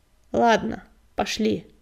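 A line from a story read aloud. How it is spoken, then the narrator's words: Grumbled. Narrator (Russian): проворчал он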